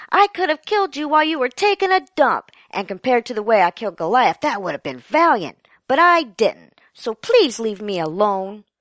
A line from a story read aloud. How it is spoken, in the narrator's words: David yelled